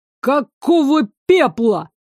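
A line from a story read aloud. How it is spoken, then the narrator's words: Startled bark. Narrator (Russian): рявкнул, хватаясь за сердце первый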